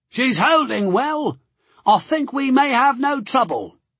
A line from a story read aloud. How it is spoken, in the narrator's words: he shouted above the storm